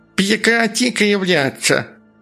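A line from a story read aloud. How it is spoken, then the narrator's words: Ugly, strange voice. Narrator (Russian): продолжало оно дурным голосом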